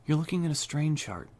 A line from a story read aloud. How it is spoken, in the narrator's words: Rebecca said brightly